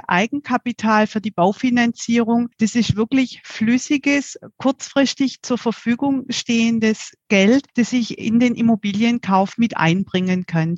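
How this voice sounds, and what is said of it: Southern German regional accent. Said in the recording (German): “du bist unser erster süddeutscher Gast ... das hört man natürlich auch am Dialekt.”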